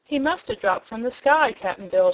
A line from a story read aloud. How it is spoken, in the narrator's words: she exclaimed